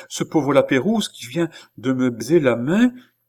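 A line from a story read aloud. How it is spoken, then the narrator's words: Exclaiming. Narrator (French): s'écria madame du Barry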